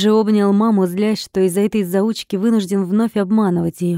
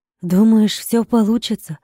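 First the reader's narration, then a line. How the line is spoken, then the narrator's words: Uncertain question. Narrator (Russian): неуверенно спросила она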